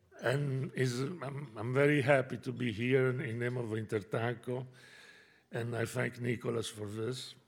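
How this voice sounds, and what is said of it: Hoarse voice from a cold. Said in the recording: “I apologize for my voice, but I am a victim of a New York weather”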